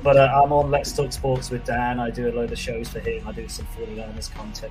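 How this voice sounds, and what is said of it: British accent. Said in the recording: “the accent is that I'm not from the US ... with an accent from the UK”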